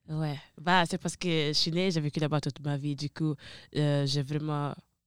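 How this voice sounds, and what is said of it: Italian accent speaking French. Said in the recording (French): “t'as un accent vraiment italien”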